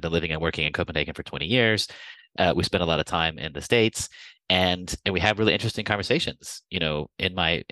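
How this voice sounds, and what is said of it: American accent. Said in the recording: “i'm obviously american you can hear from my accent”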